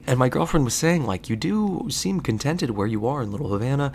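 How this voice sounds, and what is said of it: Whispering. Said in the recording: “I'm recording this, but I'm whispering it”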